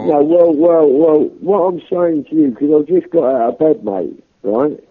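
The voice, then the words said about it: Strong regional accent. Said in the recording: “your stupid accent”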